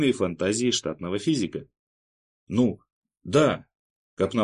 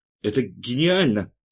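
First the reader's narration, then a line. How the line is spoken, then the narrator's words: Noisy exhale. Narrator (Russian): Алексей Островский шумно выдохнул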